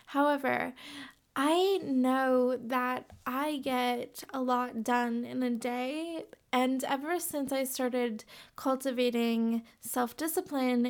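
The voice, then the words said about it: Raspy, tired voice. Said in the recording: “I'm sounding a little bit raspy, I'm very tired.”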